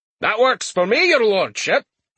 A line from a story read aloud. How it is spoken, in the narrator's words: Crumb said happily